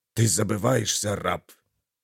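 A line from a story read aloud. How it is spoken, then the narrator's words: Angry snake-like hiss. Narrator (Russian): Слова Дарга походили на шипение рассерженной змеи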